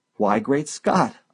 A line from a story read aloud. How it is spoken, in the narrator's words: I exclaimed